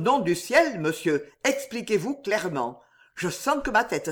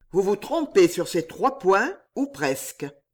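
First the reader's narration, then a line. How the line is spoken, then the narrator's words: Plain. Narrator (French): dit alors Bernice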